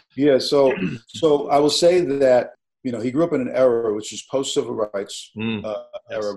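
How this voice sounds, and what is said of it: Brooklyn accent. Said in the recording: “raised in Brooklyn, as I was, which is the accent you detect”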